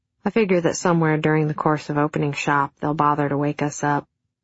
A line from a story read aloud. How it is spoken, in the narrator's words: he said